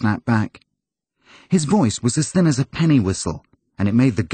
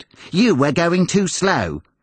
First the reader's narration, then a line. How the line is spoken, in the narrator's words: snapped back